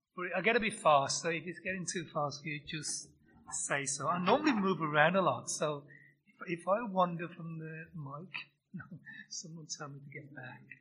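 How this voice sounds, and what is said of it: Birmingham English accent. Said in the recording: “the accent's Birmingham, England”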